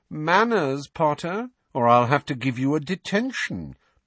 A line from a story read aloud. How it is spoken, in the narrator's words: drawled Malfoy